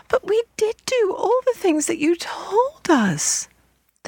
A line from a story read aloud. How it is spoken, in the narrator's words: the children cried despairingly